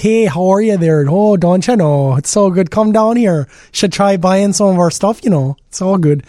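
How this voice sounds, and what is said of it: Exaggerated Minnesota accent. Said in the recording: “The accents. ... Nothing wrong with Minnesota, but there's just something about it. It's very Canadian.”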